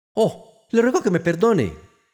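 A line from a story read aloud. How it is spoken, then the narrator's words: Sorry, worried shout. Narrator (Spanish): gritó Alicia apenada, temiendo haber herido los sentimientos del pobre animal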